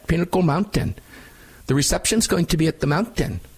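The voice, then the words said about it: Put-on Swedish accent. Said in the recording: “That's with the Swedish accent”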